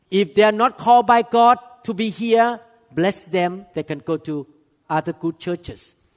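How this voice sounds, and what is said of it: Speaks with a noticeable accent. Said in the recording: “cannot handle my accent”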